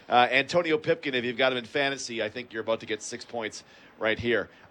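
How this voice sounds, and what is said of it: Hoarse, strained voice. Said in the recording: “First time I've lost my voice.”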